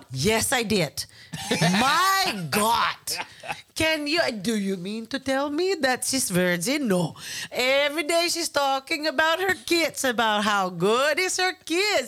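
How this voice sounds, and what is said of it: Chamorro auntie accent impression. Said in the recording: “Do your Auntie Coco Chamorro accent.”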